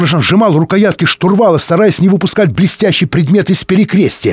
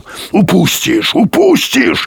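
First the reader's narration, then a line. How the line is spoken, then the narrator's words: Growling. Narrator (Russian): рычал Юрковский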